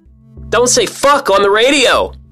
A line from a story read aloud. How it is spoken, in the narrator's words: the dispatcher yells back